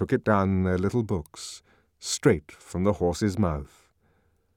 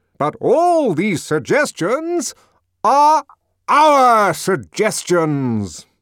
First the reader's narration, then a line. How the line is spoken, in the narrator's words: the director almost shouted in triumph